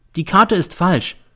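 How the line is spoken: Plain. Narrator (German): sagte sie

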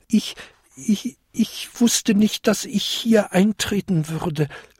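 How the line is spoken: Small goblin stammering. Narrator (German): stammelte der kleinste Winterkobold

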